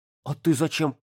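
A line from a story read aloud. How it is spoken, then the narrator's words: Caught off guard, strained. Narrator (Russian): Не ожидающий встречной атаки, Ярик с трудом выдавил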